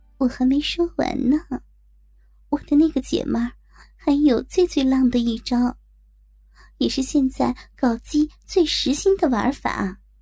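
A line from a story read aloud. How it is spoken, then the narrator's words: Happy, whispering. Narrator (Chinese): 我高兴地笑了笑，小声地在她耳边说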